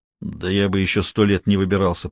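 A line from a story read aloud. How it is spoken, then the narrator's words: Grumble. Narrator (Russian): проворчал Тимохин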